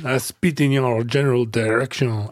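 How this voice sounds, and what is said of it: Bad Monty Python-style French accent. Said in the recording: “you're kind of like a Pepe Le Pew ... You're doing the Monty Python guy ... your offensive accent is bad ... my John Cleese derived foreign accents”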